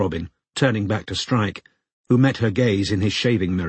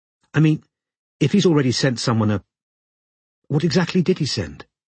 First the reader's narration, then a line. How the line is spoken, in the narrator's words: she asked, a little nervously